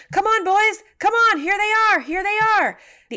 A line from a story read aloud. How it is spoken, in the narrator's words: shouting